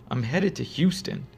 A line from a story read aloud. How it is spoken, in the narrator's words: calmly responded